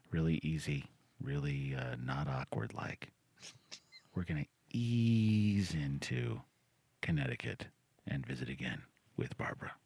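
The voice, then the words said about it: Soft whispered radio-host delivery. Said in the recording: “What are you whispering? ... I was trying to kind of go a little bit more NPR show feel. ... I didn't know why you were whispering.”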